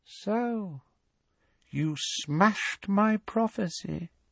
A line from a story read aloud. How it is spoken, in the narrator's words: said Voldemort softly